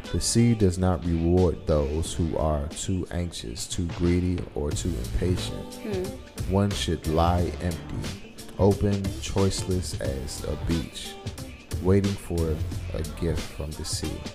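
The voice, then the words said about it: Smooth radio announcer voice. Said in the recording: “Shout out to your radio voice.”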